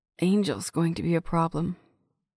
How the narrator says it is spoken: she muttered

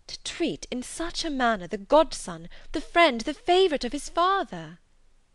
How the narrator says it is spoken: Elizabeth was again deep in thought, and after a time exclaimed

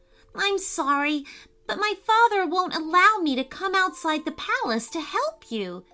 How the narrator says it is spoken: cried Maddie

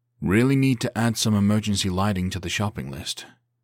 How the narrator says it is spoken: he muttered

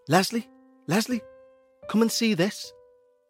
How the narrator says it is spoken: he said to his brother as he frantically dug away

